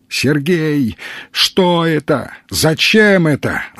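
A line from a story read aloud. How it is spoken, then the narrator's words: Sudden shout. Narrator (Russian): закричал вдруг странник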